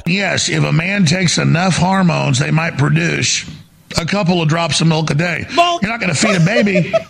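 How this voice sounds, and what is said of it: Alex Jones impression, Texas accent. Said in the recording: “that's Alex Jones ... with my sort of Texas accent”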